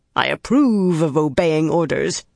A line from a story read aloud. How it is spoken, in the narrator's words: very nearly snarled